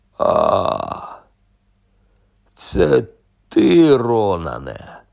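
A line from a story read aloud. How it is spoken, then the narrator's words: Relieved sigh. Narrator (Ukrainian): полегшено зітхнув Гегріт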